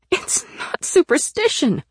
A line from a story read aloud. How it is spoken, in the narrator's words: I cried